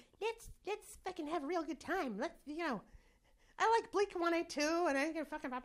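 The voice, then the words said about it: Impression of the host, Pinocchio-like voice. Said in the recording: “Why is your impression of me Pinocchio?”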